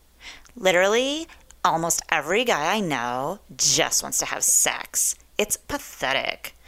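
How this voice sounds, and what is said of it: Valley Girl voice. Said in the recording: “in my best Valley Girl voice.”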